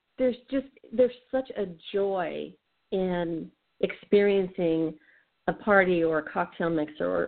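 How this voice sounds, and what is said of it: Hoarse, tired voice. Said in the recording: “that's half the reason why I'm so hoarse because, you know, I'm exhausted to boot”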